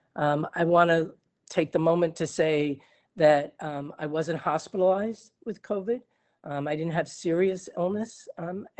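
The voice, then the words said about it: Scratchy, deeper hoarse voice. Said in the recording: “you can hear my voice ... my voice is even scratchier and deeper than it usually is”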